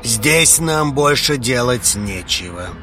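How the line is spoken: Cold reply. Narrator (Russian): холодно отозвался он

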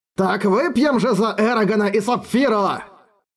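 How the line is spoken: Roared. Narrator (Russian): проревел он

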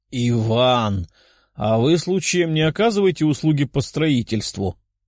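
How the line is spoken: Laughing loudly. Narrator (Russian): С хохотом

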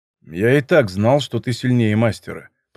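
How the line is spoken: Grumbling. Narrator (Russian): проворчал Щукин

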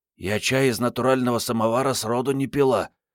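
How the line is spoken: Hoarse. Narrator (Russian): хрипло уведомила коллег Мариетта

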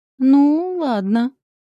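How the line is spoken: Hurt, drawn out. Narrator (Russian): обиженно протянула

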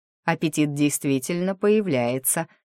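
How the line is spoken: Snorting. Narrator (Russian): хмыкнул Таор

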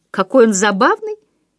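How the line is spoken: Giggling. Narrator (Russian): хихикнула Эннет

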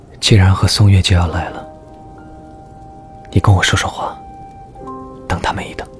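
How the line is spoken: Soft-spoken. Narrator (Chinese): 沈泽川轻声说

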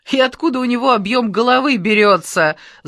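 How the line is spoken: Laughing loudly. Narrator (Russian): захохотал Теткин

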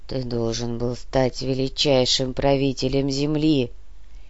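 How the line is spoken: Quiet low drone. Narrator (Russian): Тихо прогудел Нар

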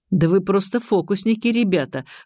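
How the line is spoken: Fat man chuckling. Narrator (Russian): хохотнул толстяк

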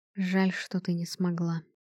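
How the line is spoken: Quiet. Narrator (Russian): тихо сказал он

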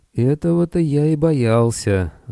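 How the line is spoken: Sigh. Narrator (Russian): вздохнул Арнольд

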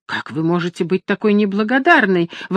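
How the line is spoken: Exclaimed. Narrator (Russian): воскликнула Агнес

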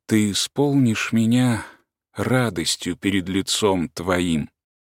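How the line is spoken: Quiet. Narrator (Russian): тихо добавил

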